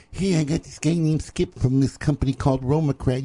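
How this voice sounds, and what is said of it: Imitates another person's voice. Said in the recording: “That's your John Barron impression? ... that's pretty much what he sounded like.”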